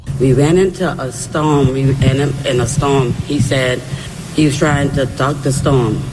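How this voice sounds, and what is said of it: Strong accent, hard to understand. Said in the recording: “At times it's difficult because of the accent”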